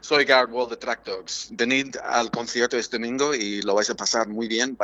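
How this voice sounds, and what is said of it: Radio announcer voice. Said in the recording (Spanish): “también trabajo como locutor, entonces voy a poner mi, voz de locutor”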